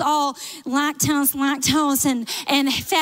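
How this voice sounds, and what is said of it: Usual voice. Nothing is said of it.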